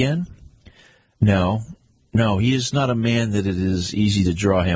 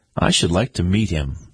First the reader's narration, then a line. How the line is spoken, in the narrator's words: I said